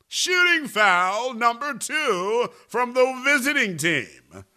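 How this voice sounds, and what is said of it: Arena PA announcer voice. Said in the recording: “That's my best Mark Fratto impersonation.”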